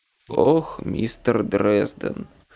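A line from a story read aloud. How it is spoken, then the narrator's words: Bored reply. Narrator (Russian): Скучающим тоном откликнулся мафиози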